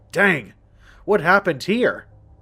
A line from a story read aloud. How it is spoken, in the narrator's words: Martin exclaimed